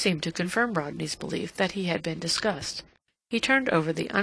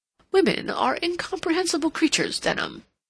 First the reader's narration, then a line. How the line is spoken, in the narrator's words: he then exclaimed